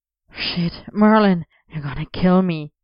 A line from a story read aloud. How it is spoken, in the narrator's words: Arthur gasped